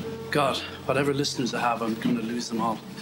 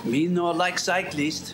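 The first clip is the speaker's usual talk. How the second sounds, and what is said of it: Generic foreign accent. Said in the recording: “he said in a generic foreign accent.”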